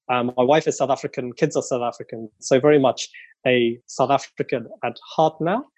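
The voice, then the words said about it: British accent. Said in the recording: “as you may get from the accent, I'm originally British”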